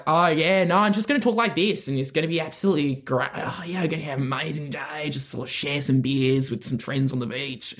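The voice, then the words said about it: Put-on Australian accent. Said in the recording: “Australian accent, simultaneously funniest voice you can have by far. ... An accent built for comedy. It's so funny. ... so sexy to me”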